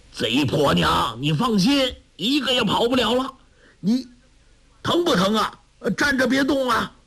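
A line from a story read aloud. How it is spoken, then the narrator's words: Shouting. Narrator (Chinese): 陈玄风叫道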